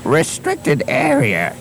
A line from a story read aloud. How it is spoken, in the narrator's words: he wheezed